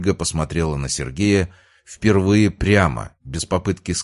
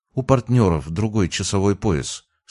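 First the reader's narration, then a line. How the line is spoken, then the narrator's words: Very calm. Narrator (Russian): сказала она очень спокойно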